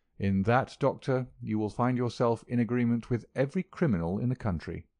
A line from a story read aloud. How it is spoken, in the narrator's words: said my friend quietly